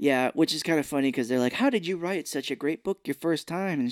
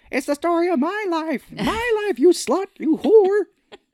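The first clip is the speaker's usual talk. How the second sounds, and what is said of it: Imitates another person's voice. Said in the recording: “That's a good impression.”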